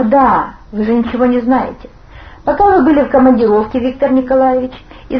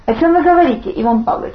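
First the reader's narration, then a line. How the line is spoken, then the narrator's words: Plain. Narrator (Russian): спросил замполит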